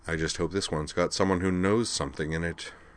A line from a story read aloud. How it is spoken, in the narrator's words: He muttered